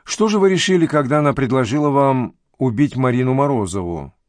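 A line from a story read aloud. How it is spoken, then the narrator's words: Plain question. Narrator (Russian): спросила Зорина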